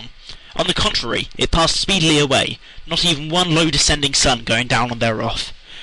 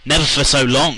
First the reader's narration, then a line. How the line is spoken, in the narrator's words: said Cecily